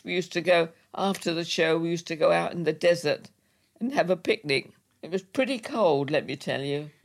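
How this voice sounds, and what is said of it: English accent. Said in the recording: “I suppose I was a change with an English accent.”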